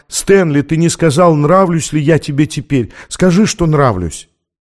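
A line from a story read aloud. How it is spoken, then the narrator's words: Excited exclamation. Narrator (Russian): Анна воскликнула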